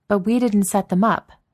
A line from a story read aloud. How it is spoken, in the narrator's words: Maria said sharply